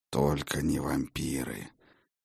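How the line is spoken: Through gritted teeth. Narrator (Russian): процедил сквозь зубы Хедин

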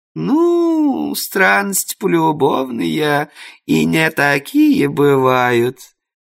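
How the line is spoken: Knowing drawl. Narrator (Russian): понимающе протянула домохозяйка

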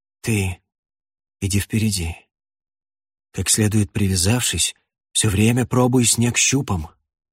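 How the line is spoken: Breathless exhale. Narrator (Russian): выдохнул он

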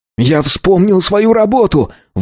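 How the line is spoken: Shouting again. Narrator (Russian): вновь закричал Рик

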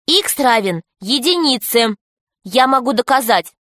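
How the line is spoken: Loud. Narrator (Russian): Алиса громко сказала

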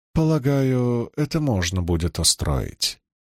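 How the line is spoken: Calm reply. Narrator (Russian): спокойно ответила Илэйн

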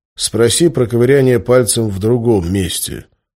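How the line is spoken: Gloomy. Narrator (Russian): мрачно ответил я

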